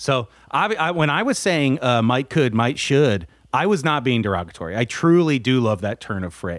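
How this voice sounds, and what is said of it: Usual voice. Nothing is said of it.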